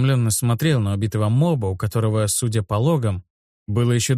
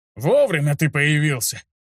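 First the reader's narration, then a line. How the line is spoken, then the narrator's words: Laughing, rapid nervous speech. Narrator (Russian): Расхохотался повар и быстро заговорил, как человек, только что переживший нервное потрясение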